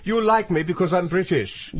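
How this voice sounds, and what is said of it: Put-on British accent. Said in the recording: “Listen to my accent.”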